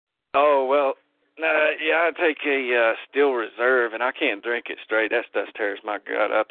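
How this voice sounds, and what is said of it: Southern American accent. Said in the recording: “the strangest ... Accent ... a southern accent”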